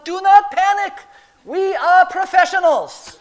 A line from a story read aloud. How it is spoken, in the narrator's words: I yell back down